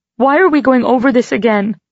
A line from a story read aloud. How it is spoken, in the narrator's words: I cried